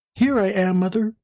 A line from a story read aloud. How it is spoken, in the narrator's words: a little voice cried